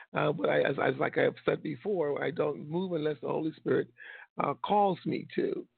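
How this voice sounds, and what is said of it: Losing voice a little. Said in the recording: “I think I'm losing my voice a little bit”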